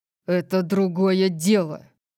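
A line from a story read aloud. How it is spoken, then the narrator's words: Agitated growl. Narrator (Russian): прорычал он, казавшийся взволнованным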